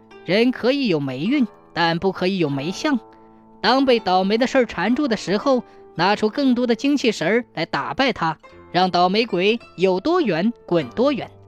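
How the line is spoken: Smiling. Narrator (Chinese): 女人笑了笑说

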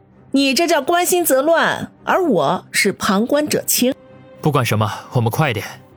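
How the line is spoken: Chuckling. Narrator (Chinese): 叶小南嘿嘿一笑

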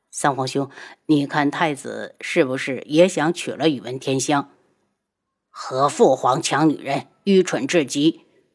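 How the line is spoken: Whispering. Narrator (Chinese): 七皇子低声对旁边的三皇子道

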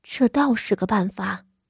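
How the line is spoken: Soft. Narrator (Chinese): 他轻声道

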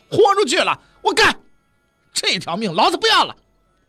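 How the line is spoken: Furious roar. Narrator (Chinese): 张勇发出了一声怒吼

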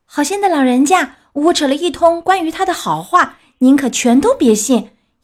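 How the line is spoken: Frightened puppet crying out. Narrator (Chinese): 木偶他害怕的叫起来

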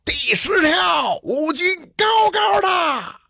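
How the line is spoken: Shouting. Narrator (Chinese): 张二驴子又喊

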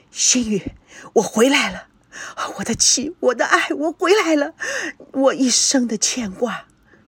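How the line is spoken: Murmuring. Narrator (Chinese): 赵念祖喃喃一语

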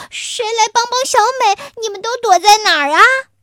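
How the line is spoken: Shouting. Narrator (Chinese): 我喊

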